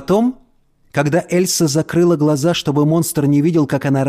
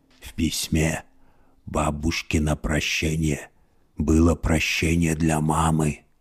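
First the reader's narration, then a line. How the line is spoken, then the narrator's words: Muffled whisper from hood. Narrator (Russian): прошептал он из-под капюшона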